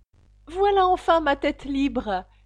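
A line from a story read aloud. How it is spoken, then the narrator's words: Joyful turning to terrified scream. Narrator (French): dit Alice d'un ton joyeux qui se changea bientôt en cri d'épouvante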